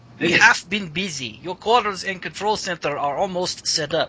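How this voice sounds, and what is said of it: Character voice with put-on accent. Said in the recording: “How's the accent? Am I doing okay?”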